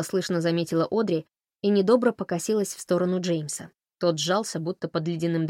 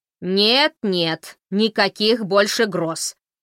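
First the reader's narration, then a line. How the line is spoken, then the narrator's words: Alarmed exclamation. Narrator (Russian): воскликнула Бренда встревоженно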